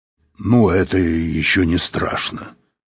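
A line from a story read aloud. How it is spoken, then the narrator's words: Grumbling. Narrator (Russian): проворчал Быков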